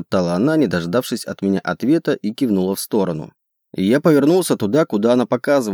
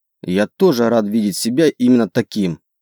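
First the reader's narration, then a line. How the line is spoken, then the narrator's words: Grumbling. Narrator (Russian): пробурчал я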